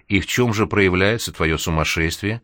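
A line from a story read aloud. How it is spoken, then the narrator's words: Sympathetic, humoring tone. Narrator (Russian): участливым тоном добавила она, словно действительно говорила с не совсем нормальным человеком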